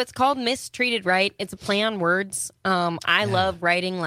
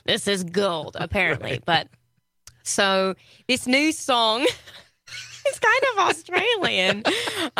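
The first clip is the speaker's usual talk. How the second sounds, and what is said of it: Put-on British accent drifting Australian. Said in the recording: “this is totally an Australian accent ... You can shelf the British accent.”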